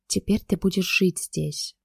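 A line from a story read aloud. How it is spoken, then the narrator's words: Whisper. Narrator (Russian): прошептал Захар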